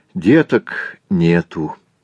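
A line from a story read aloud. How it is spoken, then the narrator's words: Sad reply. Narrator (Russian): ответил Иона печально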